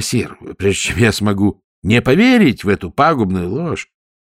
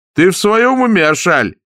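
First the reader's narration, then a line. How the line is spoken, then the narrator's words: Barked. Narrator (Russian): рявкнул принц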